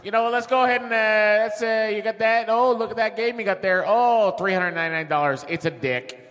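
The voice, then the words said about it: Put-on Chicago accent. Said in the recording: “talking like I was from Chicago ... Now do the Chicago accent.”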